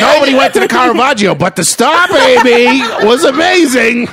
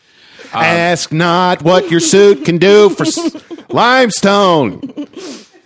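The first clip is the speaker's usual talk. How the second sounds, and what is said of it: Imitates another person's voice. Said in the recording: “Doing his Kennedy impression.”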